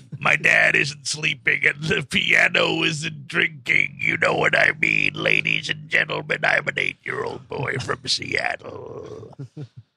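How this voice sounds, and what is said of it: Raspy little boy voice. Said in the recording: “Why is he talking like that? ... He's got a raspy little voice.”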